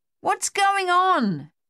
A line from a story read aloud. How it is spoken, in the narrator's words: Dave yelled in Luther's ear